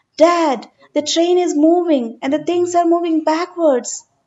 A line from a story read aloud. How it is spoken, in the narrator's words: He exclaimed at his father